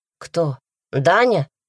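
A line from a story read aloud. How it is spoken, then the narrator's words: Spiteful smiling tone. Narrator (Russian): злобно улыбнулась Даша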